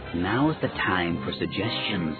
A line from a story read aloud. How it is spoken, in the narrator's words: Salkeeli hissed